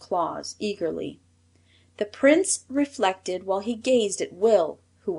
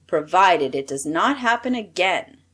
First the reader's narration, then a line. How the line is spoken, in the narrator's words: said the Prince of the Knooks sternly